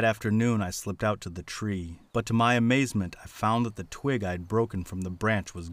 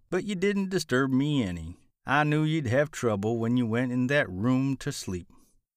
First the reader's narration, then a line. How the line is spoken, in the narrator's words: said with a drawl